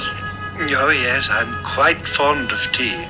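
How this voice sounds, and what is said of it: Bad put-on English accent. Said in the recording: “in his very bad English accent”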